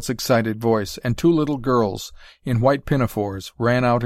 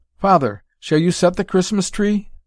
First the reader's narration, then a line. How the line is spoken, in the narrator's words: they cried